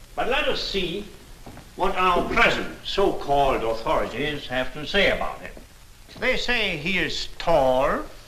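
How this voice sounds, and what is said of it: Noticeable foreign accent. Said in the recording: “I love this dude's accent. It's fantastic”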